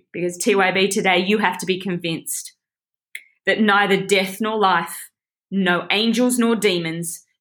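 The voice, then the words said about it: Teary, emotional voice. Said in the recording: “I'm getting a bit teary,”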